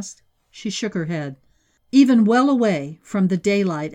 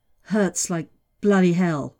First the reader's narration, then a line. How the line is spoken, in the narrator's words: murmured